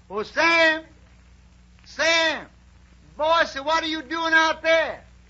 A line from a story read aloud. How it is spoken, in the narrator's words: a voice hollers